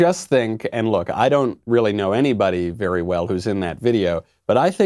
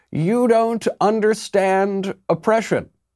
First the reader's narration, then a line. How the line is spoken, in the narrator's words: some SJW crazed, hysterical, steam coming out of her ears, and screams